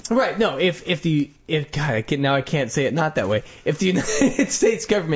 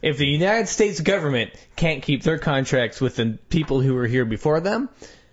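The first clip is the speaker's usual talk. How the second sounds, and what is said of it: Strong Texas accent. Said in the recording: “I said that in a very strict Texas accent”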